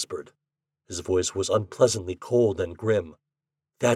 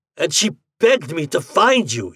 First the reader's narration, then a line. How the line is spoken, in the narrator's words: he roared